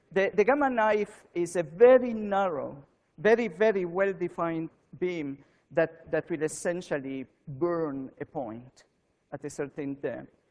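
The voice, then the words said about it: Non-Canadian foreign accent. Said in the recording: “even if you don't understand because of my accent, I don't know if you realized I'm not Canadian”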